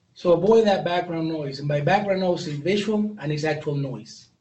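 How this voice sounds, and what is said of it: Non-native English accent. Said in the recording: “I have an accent. English is my second language.”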